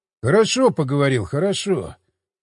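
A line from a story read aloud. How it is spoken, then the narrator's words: Sighed. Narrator (Russian): вздохнул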